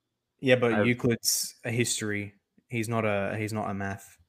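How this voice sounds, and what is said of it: Usual voice. Nothing is said of it.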